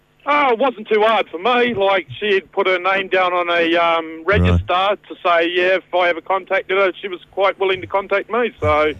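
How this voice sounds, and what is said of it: Distinctive foreign accent. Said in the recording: “I'm sitting here mesmerised by that accent. ... I just love it.”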